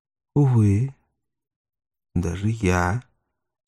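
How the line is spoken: Calm reply. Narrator (Russian): спокойно ответил гость

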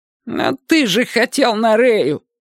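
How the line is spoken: Unexpectedly high voice. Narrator (Russian): Кимыч, неожиданно тонким голосом

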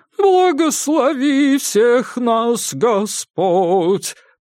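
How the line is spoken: Sung in childish falsetto. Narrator (Russian): пропел он детским фальцетом

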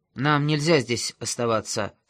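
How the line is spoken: Plain. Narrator (Russian): сказал Масклин

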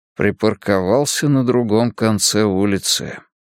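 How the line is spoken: Muttered. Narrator (Russian): пробормотал Мунк

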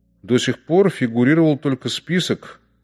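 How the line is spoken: Calm. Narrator (Russian): сказал спокойно Бергер

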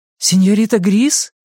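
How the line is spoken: Surprised, alarmed exclamation. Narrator (Russian): с удивлением и тревогой воскликнула Беа

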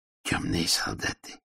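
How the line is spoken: Whispered. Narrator (Russian): прошептал Мудрошлем

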